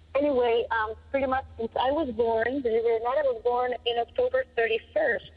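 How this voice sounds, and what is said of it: Ecuadorian Spanish accent in English. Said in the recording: “I'm originally from Ecuador, so you might hear a little bit of an accent there, or a lot of an accent.”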